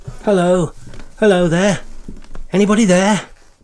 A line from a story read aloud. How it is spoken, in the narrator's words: young Reggie's voice shouting